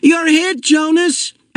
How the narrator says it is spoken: Asher yelled from behind the tree

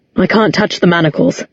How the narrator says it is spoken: said Luke

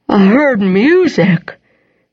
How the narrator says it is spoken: Henry said slowly, yawning

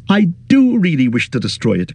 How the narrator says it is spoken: cried Frodo

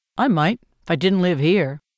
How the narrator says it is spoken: says Gale

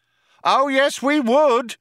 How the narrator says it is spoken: shouted the cop

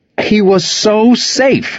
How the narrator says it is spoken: yell

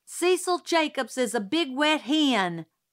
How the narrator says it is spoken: yelled suddenly

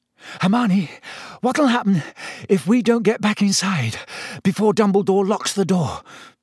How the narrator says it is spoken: Harry panted

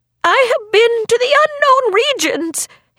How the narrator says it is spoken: he cried

